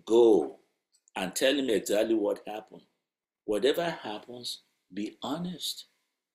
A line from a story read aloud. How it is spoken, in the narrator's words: his wife gently replied